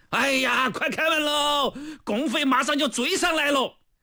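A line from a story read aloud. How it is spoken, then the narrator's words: Soldiers shouting upward. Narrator (Chinese): 战士们也纷纷向城楼上的敌人喊话了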